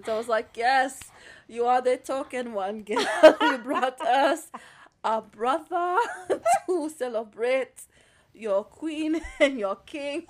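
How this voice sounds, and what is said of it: Exaggerated put-on African accent. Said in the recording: “this horrible African accent”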